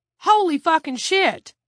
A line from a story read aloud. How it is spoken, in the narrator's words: Eric Blass cried